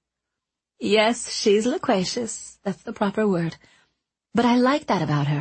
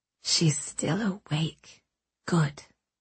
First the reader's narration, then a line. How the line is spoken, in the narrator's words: Anchorette whispered